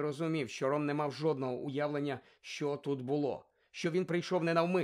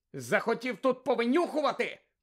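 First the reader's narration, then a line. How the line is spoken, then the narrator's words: Shouted. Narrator (Ukrainian): крикнув Гаррі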